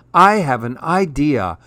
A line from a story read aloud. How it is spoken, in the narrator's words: cried Little Knopf